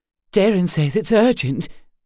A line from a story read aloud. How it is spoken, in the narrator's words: Willa gasped